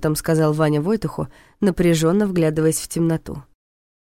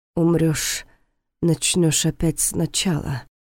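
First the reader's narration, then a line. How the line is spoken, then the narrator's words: Muttering. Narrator (Russian): пробормотал он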